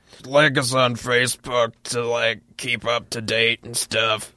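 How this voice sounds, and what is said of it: Imitates another person's voice. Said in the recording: “Was that an impression of me?”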